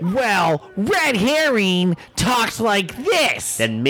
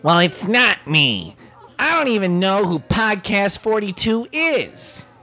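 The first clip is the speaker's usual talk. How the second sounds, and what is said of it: Imitates another person's voice. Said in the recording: “That's a great impression of me.”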